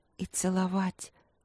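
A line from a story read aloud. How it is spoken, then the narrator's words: Barely audible whisper. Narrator (Russian): прошептала она тихо-тихо, так что даже сама не услышала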